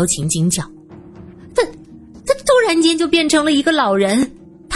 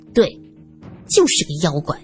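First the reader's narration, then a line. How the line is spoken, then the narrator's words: Through gritted teeth. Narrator (Chinese): 咬牙切齿的说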